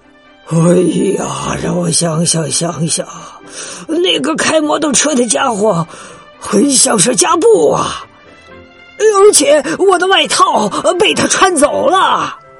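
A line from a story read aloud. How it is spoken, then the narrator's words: Sighing. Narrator (Chinese): 哈利叹了口气说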